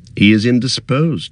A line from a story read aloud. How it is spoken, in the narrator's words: he said